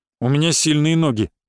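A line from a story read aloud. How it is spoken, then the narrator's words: Grumbled. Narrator (Russian): буркнул охранник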